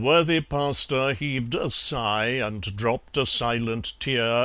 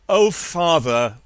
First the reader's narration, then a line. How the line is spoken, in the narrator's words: little Alice cried